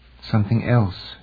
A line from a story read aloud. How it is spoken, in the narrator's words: she murmured